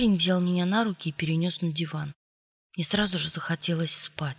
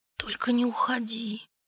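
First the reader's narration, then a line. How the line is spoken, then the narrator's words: Whispered. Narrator (Russian): прошептала я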